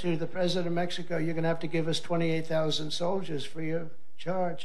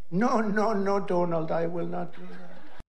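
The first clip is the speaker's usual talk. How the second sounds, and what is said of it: Mimicked foreign leader's accent. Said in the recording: “Trump mimicking an accent ... mimicking the accents of other world leaders”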